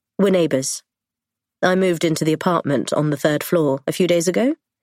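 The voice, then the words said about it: Blunt English accent. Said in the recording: “His English accent, the bluntness of it.”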